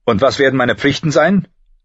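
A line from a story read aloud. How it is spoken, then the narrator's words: Sharp question. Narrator (German): fragte John scharf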